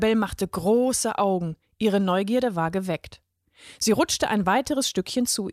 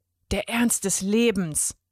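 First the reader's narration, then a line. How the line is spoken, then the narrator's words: Boy's low murmur. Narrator (German): Der Junge raunte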